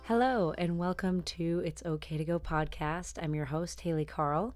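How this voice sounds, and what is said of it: Slightly changed, odd-sounding sick voice. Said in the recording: “you might notice a slight change in my voice. I have a bit of a cold ... forgive me for my odd voice”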